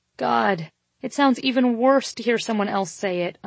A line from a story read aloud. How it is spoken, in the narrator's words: I groaned as I buried my face in my hands